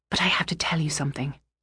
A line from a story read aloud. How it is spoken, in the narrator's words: I said to her quietly